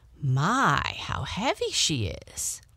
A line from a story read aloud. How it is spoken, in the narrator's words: she exclaimed